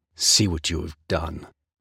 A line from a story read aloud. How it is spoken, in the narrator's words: rasped his harsh voice